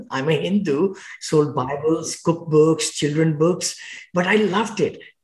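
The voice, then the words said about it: Thick foreign accent. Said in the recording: “my accent was very thick. It's still thick, and people wouldn't understand me.”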